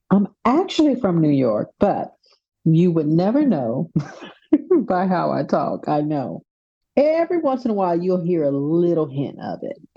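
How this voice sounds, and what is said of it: Texas accent. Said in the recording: “My Texas accent is live and well. Sometimes I feel more Texan than other times.”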